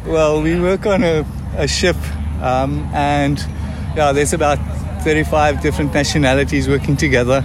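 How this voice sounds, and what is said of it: South African accent. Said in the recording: “a South African accent”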